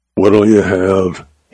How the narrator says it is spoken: he growled, as was his manner with late customers

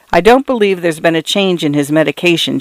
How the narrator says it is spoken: she said

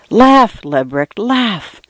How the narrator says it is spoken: I whispered

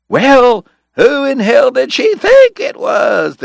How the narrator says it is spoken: the cowboys hollered

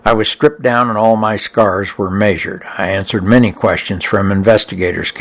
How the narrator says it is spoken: Capers said

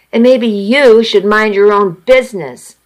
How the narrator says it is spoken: I snapped

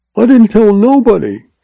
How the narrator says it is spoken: quavered the cringing agent

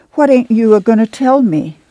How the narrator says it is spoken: She begged

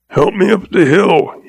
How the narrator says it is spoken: he choked

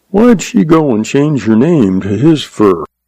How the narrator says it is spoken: The young man sighed

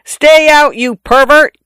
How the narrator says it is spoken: I yelled in a voice not mine

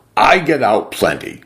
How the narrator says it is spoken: said testily

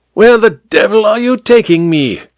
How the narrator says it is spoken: King Kong leaned close to shout the words into Amberley's ear

